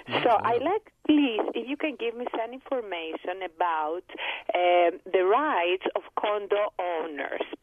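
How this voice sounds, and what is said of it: Greek accent. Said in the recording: “my funny Greek accent”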